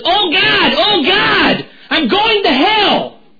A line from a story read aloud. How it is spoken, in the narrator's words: Never yelled that loud in here